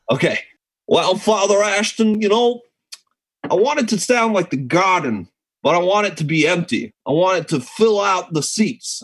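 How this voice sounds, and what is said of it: Imitates another person's voice. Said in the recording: “I'm going to do the best Zach Wild impression I can muster.”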